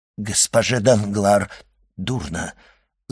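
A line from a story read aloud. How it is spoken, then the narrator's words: Stammering. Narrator (Russian): запинаясь, сказал Вильфор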